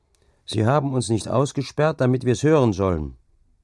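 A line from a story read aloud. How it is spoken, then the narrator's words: Calling back. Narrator (German): rief zurück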